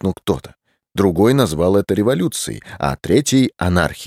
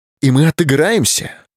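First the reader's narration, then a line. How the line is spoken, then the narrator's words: Exclaim. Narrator (Russian): воскликнул Гарфилд, один из крупнейших миллионеров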